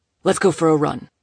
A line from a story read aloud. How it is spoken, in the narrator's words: Moses snapped, more of an order than a suggestion